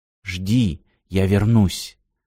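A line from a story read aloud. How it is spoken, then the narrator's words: Whisper. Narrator (Russian): прошептал Алекс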